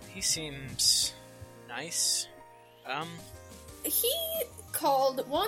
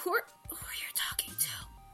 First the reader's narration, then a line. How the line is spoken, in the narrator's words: She whispers